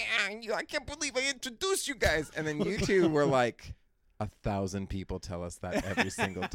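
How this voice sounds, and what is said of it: Usual voice. Nothing is said of it.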